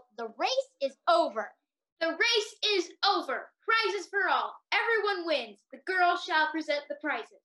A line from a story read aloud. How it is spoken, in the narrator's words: Very suddenly, the dodo yelled